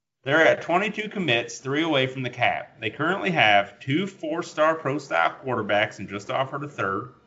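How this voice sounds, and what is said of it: Put-on southern accent. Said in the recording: “I'm just going to do his with a southern accent now.”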